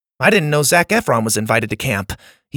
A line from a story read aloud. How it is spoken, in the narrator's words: he blurted